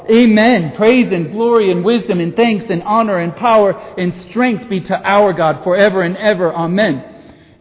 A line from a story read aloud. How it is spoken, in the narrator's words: all the angels ... shouting as well